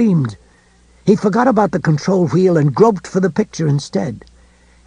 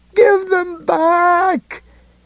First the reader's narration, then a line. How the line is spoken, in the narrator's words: he bawled again